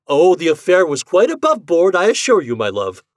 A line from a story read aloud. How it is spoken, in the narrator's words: I cried